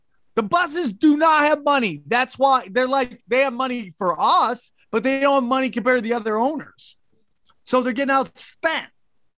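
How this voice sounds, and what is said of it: Yelling, ranting. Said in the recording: “stop yelling ... that rant”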